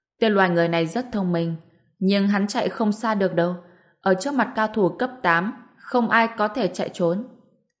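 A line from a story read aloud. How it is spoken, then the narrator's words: Wolf monster, laughing. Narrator (Vietnamese): Tên quái vật sói lông trắng bật cười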